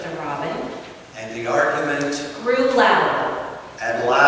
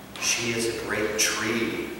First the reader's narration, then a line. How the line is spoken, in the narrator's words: murmured the willow